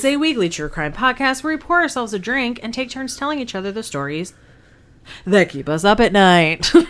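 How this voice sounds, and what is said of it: Mock newscaster voice. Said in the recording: “trying my newscaster voice ... I was doing that for effect.”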